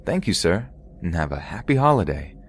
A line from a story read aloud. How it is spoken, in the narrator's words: saying in my bubbly voice